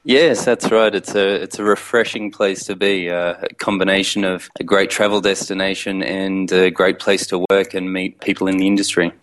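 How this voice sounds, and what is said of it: Australian accent. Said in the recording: “by your accent, you're an Australian?”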